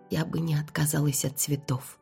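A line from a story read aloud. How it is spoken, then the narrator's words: Whispered. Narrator (Russian): прошептала я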